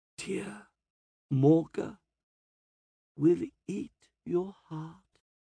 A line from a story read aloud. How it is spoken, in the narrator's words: she rasps